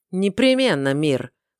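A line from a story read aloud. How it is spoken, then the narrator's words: Snorting father. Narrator (Russian): хмыкнул отец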